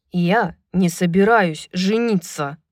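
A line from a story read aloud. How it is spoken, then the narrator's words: Growled. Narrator (Russian): прорычал Рун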